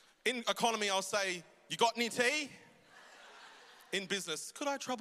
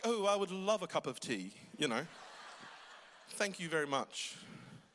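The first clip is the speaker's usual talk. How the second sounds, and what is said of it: Put-on refined accent. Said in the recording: “I even put on an accent.”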